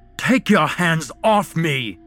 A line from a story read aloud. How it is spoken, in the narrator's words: Ian bellowed